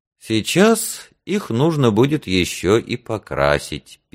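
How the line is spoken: Sad. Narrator (Russian): печально сказала она

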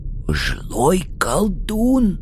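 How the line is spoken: Quiet old man. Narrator (Russian): так же тихо сообщил старик

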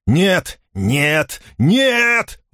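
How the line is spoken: Shouting at top of lungs. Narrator (Russian): во всю глотку закричал он вниз своему созданию

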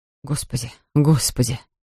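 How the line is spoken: Muttered. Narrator (Russian): Бормотал он

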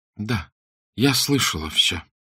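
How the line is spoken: Weak, faint voice. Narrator (Russian): призналась Арабелла слабым голосом

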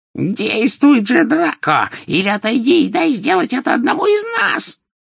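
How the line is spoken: Shrill shriek. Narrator (Russian): визгливо вскрикнула колдунья

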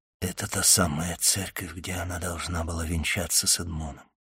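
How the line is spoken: Whispered. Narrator (Russian): прошептал аббат

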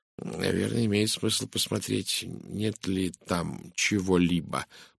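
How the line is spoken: Muttered. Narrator (Russian): пробормотал он

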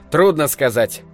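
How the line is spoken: Plain. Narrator (Russian): ответил Тасман

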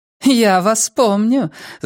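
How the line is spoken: Laughing. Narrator (Russian): засмеялась дама

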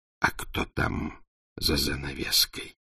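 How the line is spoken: Whispered question. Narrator (Russian): спросил шепотом

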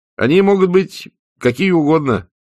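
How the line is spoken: Uncertain. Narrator (Russian): неуверенно сказал Адам

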